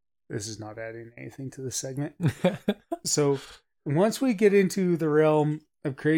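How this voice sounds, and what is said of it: Usual voice. Nothing is said of it.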